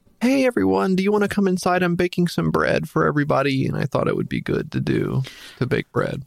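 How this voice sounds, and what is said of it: Imitates another person's voice. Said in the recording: “do your best Tiger King impression ... your impression of the Tiger King from Netflix's Tiger King”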